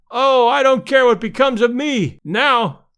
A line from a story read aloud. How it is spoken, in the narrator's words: one fan, evidently a little longer winded than his comrades, cried out hysterically